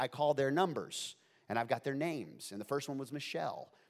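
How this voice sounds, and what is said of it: Usual voice. Nothing is said of it.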